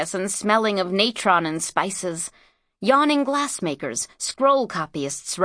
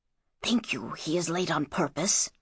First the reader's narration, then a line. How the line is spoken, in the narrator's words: whispered the other indignantly